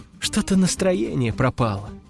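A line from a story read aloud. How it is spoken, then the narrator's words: Sighing. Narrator (Russian): вздохнула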